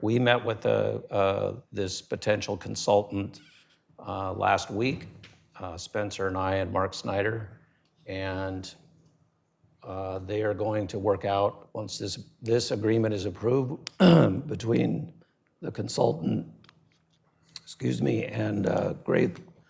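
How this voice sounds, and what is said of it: Strained, failing voice. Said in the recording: “I'm losing my voice here.”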